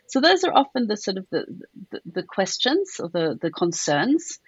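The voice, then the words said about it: South African accent. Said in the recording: “as you can hear, I don't have a British accent. I have a South African one.”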